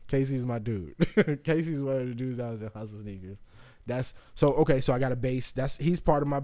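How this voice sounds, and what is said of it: Usual voice. Nothing is said of it.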